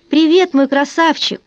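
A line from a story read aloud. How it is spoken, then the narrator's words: Laughing loudly. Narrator (Russian): Джонатан Хьюз расхохотался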